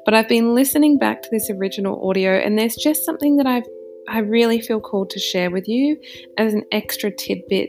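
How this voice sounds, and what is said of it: Slightly husky voice. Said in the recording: “It's 11 o'clock at night, so my voice is a little husky ... why there's a bit of a change here in my voice”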